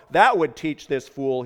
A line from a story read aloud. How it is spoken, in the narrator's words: said